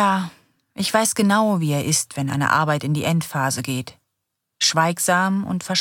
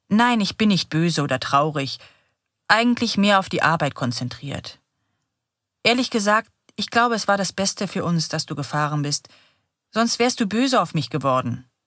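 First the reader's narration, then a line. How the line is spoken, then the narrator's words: Plain. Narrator (German): sagt Johann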